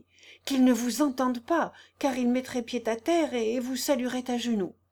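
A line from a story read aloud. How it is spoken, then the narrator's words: Frantic exclamation. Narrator (French): s'écria Joseph tout hors de lui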